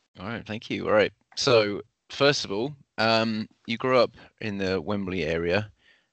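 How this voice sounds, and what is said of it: Southern English accent. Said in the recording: “I have a Southern accent too”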